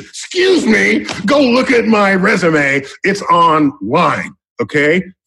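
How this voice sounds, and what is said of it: Shouting, worked-up delivery. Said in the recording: “again, I'm screaming again ... I like to see you get worked up”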